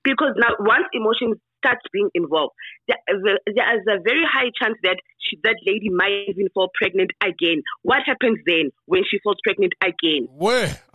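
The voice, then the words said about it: Speaks with a noticeable accent. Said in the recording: “I love that accent. I love that accent.”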